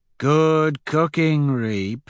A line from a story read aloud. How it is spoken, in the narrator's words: Severo drawls